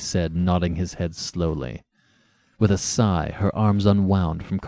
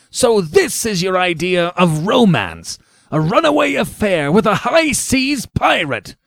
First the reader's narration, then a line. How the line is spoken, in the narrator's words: he repeated savagely